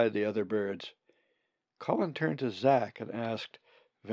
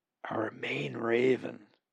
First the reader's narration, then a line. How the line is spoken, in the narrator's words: Zack replied in a whisper